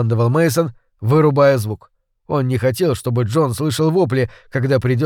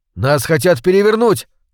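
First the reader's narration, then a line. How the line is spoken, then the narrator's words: Yelling over crowd. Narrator (Russian): орал Холман, перекрикивая рёв толпы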